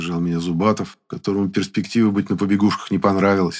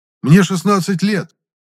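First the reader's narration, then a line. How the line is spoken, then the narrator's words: Indignant teenage outburst. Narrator (Russian): возмущенно, как только мог бы возмущаться настоящий подросток, выпалил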